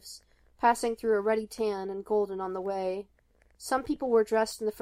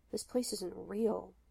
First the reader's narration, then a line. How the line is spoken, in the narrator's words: he murmured, under his breath